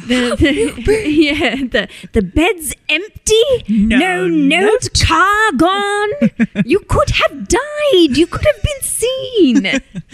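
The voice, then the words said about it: Imitates Molly Weasley yelling. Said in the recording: “my Molly Weasley yelling ... That's a great impression.”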